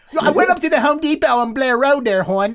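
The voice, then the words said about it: Baltimore accent. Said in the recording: “now you can hear my Baltimore accent coming out... I heard it when you said Baltimore... you haven't lost that one”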